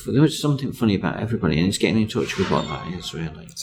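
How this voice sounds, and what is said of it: Noticeable non-local accent. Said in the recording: “So I hear your accent.”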